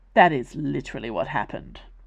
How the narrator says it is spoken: said Colin

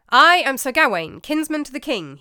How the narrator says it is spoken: he said

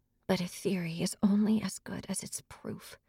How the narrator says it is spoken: she whispered to herself

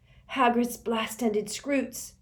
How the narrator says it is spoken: he hissed

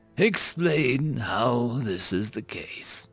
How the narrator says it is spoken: Growl asked, his tone calm if not a little curious

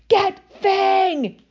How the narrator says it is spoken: Harry yelled

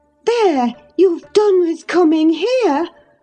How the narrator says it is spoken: cried Catherine

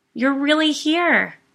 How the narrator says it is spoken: said excitedly

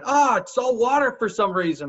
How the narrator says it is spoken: Screamed high pitch

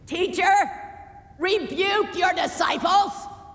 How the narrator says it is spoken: one of our religious leaders shouted above the din

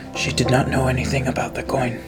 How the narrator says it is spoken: I'm going to whisper to him

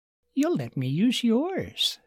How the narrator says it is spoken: she said sweetly

